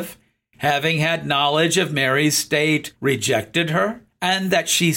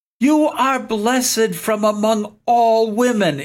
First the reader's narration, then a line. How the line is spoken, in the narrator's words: Elizabeth cried out